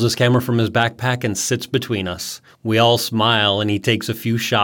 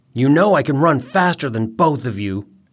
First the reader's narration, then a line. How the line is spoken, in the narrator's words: Eric growls